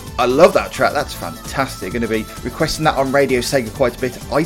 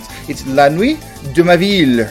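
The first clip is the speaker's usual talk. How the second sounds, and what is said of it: Mock French Black Country accent. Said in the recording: “in a French black country accent”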